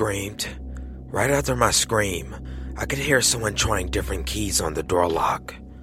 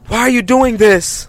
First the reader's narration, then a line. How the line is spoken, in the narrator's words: I yelled again